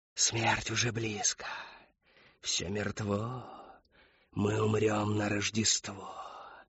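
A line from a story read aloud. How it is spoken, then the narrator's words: Prompting. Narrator (Russian): подсказала Шептунья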